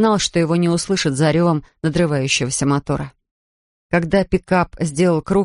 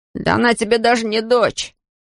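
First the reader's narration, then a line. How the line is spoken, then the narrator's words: Shouting. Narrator (Russian): закричал Ной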